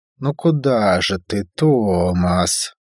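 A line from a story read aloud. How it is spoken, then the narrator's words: Disappointed drawl. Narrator (Russian): разочарованно протянула Северина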